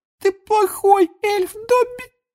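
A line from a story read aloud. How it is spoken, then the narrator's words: Tearful moan. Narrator (Russian): Простонала Винки, и слезы опять покатились из ее глаз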